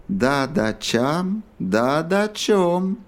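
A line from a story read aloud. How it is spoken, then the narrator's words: Chanted in singsong. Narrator (Russian): нараспев произнес Кинг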